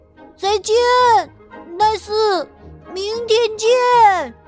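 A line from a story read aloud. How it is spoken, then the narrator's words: Shouting. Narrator (Chinese): 大声的喊道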